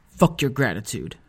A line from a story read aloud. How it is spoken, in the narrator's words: I said bitterly